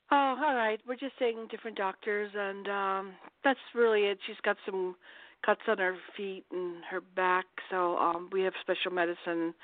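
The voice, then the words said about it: Slightly raspy voice. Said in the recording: “I was coughing. A little raspy.”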